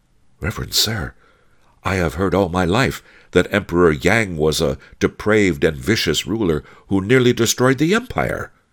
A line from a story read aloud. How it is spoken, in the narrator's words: exclaimed